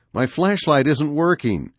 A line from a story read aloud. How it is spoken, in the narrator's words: my brother Paul whimpered